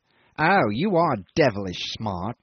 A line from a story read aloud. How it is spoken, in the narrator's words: he sneered